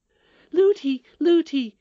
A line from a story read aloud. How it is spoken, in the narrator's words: cried the princess